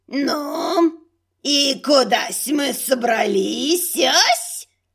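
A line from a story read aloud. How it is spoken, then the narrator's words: Creaky question. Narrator (Russian): Скрипучим голосом спросила одна из сторожевых горгулей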